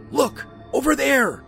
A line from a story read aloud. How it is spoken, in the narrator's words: Charlie shouted